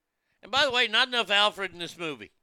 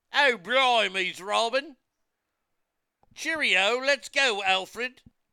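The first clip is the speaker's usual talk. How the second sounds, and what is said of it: Exaggerated mock British accent. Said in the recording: “shitty British accent”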